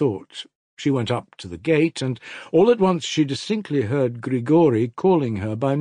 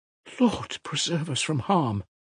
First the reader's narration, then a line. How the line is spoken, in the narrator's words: Marfa Ignatyevna murmured